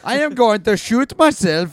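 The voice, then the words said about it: Mock German accent, slipping Dutch. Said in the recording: “she did it with a German accent ... Is that German? I don't know. ... I got Dutch for a second there. I went like upbeat.”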